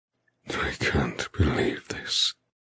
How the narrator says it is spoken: he rasps roughly

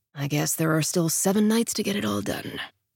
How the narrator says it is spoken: he mutters

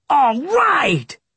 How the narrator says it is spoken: Brian yelled

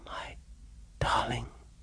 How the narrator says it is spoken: she whispered

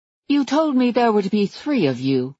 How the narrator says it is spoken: Margaret said coolly

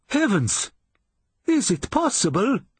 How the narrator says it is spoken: cried the commandant

